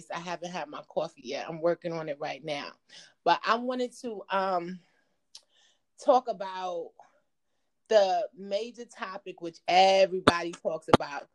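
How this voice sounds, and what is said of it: Groggy, just-woken-up voice. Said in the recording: “in my morning groggy voice.”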